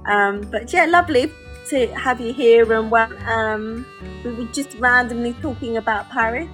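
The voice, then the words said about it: North London accent. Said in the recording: “my wonderful accent that I'm currently in London... a Londoner, born and bred... I'm from North London, so we have quite an unusual accent”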